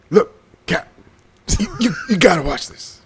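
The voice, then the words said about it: Bad Captain Kirk impression. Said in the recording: “That's the worst Kirk I've ever heard. ... trying to do Kirk. That's like three fucking bad impersonations”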